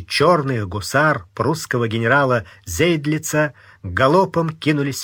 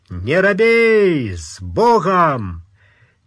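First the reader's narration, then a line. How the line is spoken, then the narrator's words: Old man yelling. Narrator (Russian): старый фриц заорал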